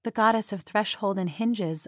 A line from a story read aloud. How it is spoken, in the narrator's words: murmured